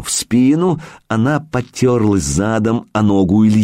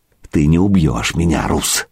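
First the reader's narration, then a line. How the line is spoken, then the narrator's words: Young woman's near whisper. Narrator (Russian): На этот раз девка говорила почти шепотом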